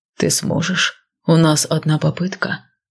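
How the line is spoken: Low voice. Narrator (Russian): вполголоса произнес Айрон

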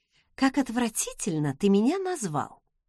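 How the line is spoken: Mumbling. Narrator (Russian): пробормотала я

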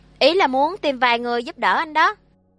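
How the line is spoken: Smiling. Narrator (Vietnamese): Lục Du mỉm cười

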